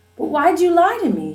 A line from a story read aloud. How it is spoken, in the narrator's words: She cried